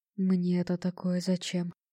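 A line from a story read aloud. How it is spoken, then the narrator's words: Mutter under breath. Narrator (Russian): пробормотал себе под нос начальник станции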